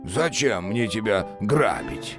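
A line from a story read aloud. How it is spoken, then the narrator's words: Snorting. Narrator (Russian): Хмыкнул Кощей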